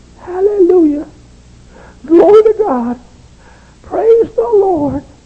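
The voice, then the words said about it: Small squeaky voice. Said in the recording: “a little squeaky voice”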